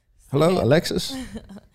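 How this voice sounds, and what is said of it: Old white man voice. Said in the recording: “Why does he sound like an old white man?”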